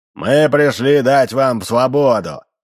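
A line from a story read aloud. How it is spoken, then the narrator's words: Shouting in a bass voice. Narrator (Russian): закричал Солисов басом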